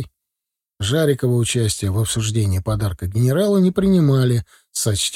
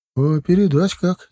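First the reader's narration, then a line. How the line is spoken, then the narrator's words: Uncertain grandmother's question. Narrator (Russian): неуверенно спросила бабушка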